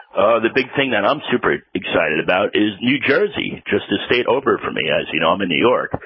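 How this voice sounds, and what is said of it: New York accent. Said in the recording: “You're from New York? I don't think our audience would know from your accent.”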